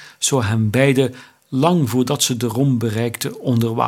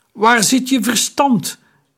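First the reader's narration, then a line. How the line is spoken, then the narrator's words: Calling out. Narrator (Dutch): riep Taharka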